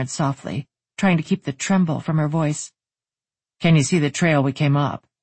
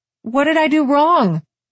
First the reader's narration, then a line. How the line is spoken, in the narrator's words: She blurted out